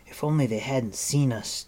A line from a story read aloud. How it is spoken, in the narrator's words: Terran moaned